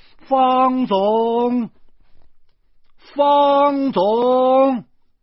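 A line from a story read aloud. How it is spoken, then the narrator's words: Calling out. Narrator (Chinese): 只叫了几声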